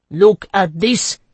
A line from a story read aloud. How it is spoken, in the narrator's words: he shouted to his men